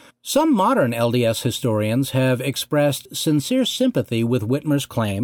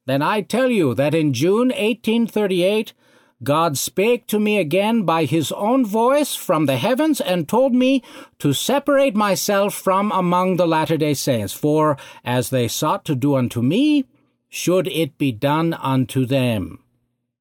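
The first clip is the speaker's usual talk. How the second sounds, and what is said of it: Poor put-on German accent. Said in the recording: “Forgive my horrible German accent”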